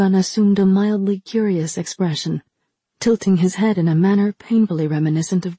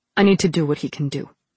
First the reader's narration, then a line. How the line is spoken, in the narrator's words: she said flatly